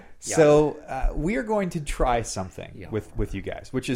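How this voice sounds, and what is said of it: Usual voice. Nothing is said of it.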